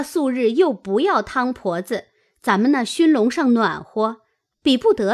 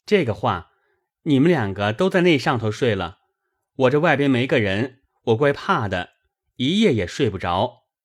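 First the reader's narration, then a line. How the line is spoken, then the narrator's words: Laughing. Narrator (Chinese): 宝玉笑道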